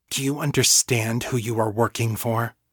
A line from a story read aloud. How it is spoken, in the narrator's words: Fiona asked her, her voice low but intense